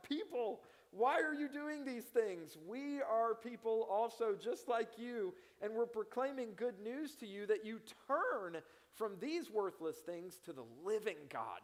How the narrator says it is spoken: they rushed into the crowd shouting

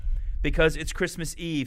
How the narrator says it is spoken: said Barrington

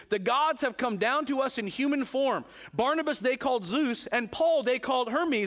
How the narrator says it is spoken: the crowd … shouted in the Lyconian language

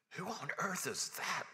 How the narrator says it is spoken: whispered Susan

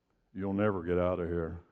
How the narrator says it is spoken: the first guy just calmly says

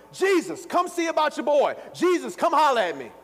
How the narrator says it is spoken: he's shouting, he's hollering

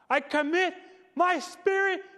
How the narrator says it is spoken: in a loud voice

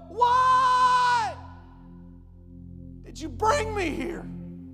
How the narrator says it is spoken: she yelled

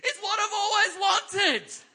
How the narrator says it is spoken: This kid, she screams out, declares to the whole family

